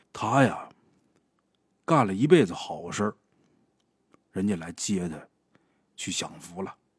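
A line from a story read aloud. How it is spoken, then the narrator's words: Deep sigh. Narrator (Chinese): 他爷爷深深的叹了一口气，说呀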